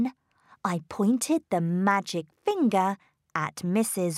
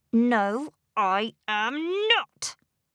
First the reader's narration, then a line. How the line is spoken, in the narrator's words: I said angrily